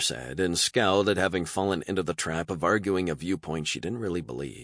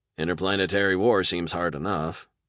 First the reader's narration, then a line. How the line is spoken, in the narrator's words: said Jones dryly